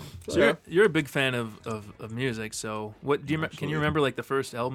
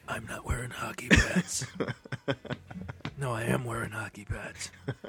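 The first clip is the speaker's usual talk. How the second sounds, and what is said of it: Gravelly Batman character voice. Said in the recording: “That's Batman. ... That's a good Batman. ... that impersonation.”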